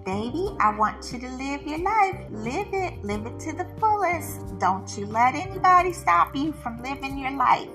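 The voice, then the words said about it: Imitated southern US accent. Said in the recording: “as she would say in her little southern accent.”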